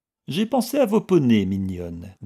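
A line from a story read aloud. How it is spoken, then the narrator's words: Amiable, casual, caressing. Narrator (French): dit-il d'un ton aimable, dégagé mais caressant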